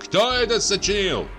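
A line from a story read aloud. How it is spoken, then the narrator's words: Loud question. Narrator (Russian): спросил громко Прачкин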